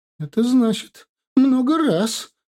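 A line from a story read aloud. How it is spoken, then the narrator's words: Sobbing. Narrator (Russian): всхлипнула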